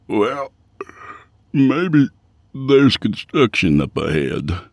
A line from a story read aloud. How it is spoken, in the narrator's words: Yancey yawned